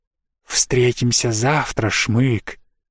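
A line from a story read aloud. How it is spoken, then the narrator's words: Hissing. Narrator (Russian): прошипел Снес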